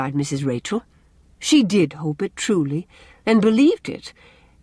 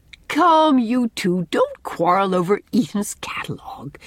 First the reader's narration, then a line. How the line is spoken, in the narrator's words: said Anne gaily